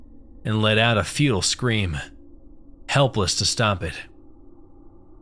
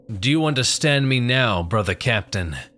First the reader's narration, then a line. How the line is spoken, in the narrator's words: booming voice from the creature